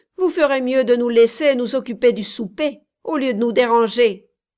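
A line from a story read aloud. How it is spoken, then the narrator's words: Grumbling. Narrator (French): grommela Codelin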